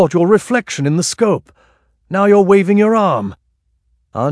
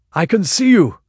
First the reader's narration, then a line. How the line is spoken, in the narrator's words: exclaimed Raja Singh suddenly